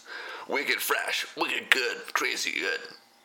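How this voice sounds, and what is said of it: Poor attempt at Boston accent. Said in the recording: “My Boston accent is absolutely horrendous.”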